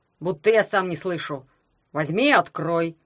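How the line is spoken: Snapping. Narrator (Russian): огрызнулся дядя Герман

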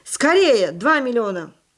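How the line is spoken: Shouting. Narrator (Russian): крикнул

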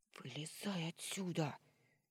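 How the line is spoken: Hushed demand. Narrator (Russian): Тихо потребовала, стараясь не шуметь

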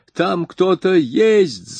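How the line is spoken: Shrieked. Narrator (Russian): завизжала

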